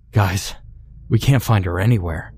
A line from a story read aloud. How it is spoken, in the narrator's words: Matt panted